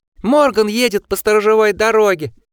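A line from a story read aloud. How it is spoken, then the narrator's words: Shrieked. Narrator (Russian): взвизгнул Османд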